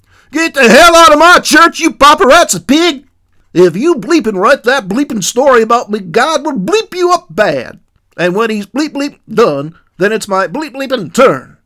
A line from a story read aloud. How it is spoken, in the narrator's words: Red-faced and almost incoherent, Rocky yelled